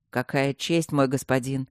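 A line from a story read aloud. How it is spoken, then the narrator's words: Sarcastic, teeth chattering. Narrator (Russian): язвительно проговорил Люк, хотя глаза у него слезились и зуб на зуб не попадал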